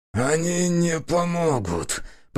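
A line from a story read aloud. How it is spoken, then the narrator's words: Hoarse rasp. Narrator (Russian): прохрипел он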